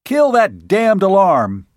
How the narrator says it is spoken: he roared

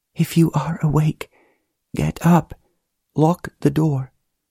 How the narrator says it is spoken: a very soft voice whispered

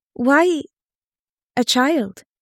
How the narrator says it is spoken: Fae stammered

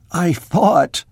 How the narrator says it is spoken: choked Merdikian

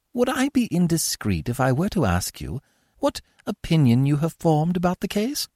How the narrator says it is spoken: said Arsène Lupin, in that deferential tone which he employed in speaking to Holmes

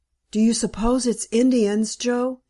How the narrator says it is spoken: he whispered huskily

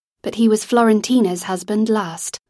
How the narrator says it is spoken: Lizzie said in an even tone

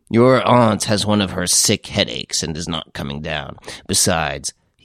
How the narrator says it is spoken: added gruffly

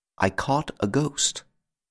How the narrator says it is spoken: Then he said, quite quietly

